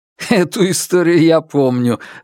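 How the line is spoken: Laughing. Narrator (Russian): рассмеялся

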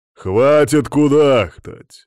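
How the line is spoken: Growling. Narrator (Russian): рыкнул я

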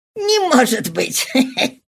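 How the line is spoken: Laughing exclamation. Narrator (Russian): воскликнул тот, рассмеявшись

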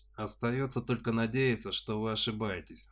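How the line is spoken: Soldier's sigh. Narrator (Russian): вздохнул военный

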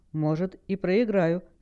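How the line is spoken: Calm. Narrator (Russian): спокойно произнесла Хэл

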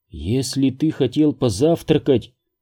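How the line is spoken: Quiet. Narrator (Russian): тихо произнесла Элен

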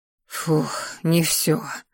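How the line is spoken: Silent inner sigh. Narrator (Russian): выдохнула мысленно

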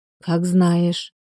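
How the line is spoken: Weary sigh. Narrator (Russian): устало вздохнула Ольга

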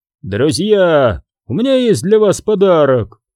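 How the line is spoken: Shout. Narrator (Russian): крикнул Аберон

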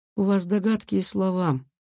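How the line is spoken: Soft with steely edge. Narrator (Russian): Тао говорил мягко, но в голосе уже пробивалась сталь

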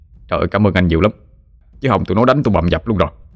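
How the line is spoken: Effusive, flustered thanks. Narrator (Vietnamese): anh tài xế rối rít

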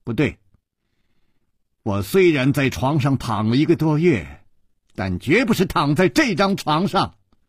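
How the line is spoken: Firm loud voice. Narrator (Chinese): 少女断然地摇了摇头，大声地说

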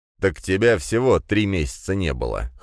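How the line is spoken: Wry snort. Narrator (Russian): хмыкнул Дракин

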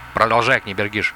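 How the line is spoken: Plain. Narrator (Russian): сказал князь

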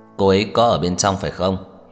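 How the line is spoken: Slightly raised voice. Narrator (Vietnamese): Tưởng Thiên Lỗi nhìn thái độ của Trần Mạn Hồng cứng rắn, hơi cất cao giọng

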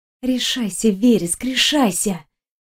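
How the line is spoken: Quiet muttering to herself. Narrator (Russian): Тихо проговорила Виктория сама себе

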